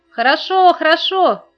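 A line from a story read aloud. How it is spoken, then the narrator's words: Cheerful group shout. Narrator (Russian): закричали они весело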